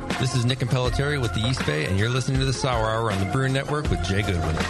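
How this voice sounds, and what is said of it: Smooth announcer-style radio voice. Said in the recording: “Sounding good. I'm jealous of his radio voice. ... it's just so good.”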